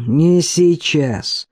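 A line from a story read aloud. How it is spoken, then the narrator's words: Through gritted teeth. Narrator (Russian): процедил черноволосый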